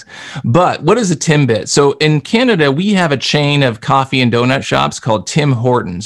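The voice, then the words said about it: Canadian English accent. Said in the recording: “I'm Canadian. You can tell by my accent. I say process and project and those kinds of things.”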